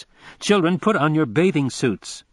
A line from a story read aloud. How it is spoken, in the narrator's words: raising her voice